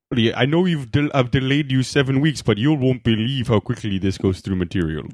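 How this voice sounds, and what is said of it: Funny put-on accent. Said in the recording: “it's a funny accent. I don't know if it's accurate. ... It's my new favorite accent”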